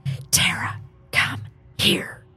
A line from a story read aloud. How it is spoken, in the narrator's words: said in a whispery voice, but demanding voice